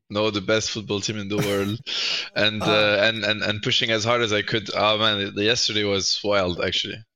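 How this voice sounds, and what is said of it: Hoarse, nearly lost voice. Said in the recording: “Ceb lost his voice... I lost my voice cheering for the best football team in the world.”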